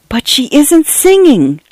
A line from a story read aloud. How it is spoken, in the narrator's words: Cynthia whispered in shock and horror